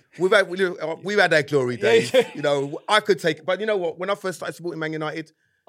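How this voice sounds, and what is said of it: Cockney London accent. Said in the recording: “I can tell by the accent ... Cockney”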